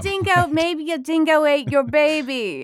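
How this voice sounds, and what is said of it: Impressive put-on accent, Elaine from Seinfeld. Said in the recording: “look at the accents with you here. That's impressive.”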